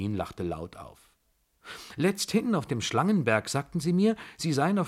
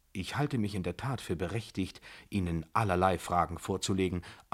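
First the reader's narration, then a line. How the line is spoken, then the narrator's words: Calm answer. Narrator (German): antwortete ich ruhig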